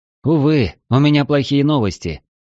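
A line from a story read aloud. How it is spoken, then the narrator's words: Sighing. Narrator (Russian): вздохнул я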